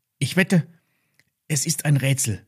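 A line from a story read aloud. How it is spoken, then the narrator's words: Excited. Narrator (German): sagte Lilly aufgeregt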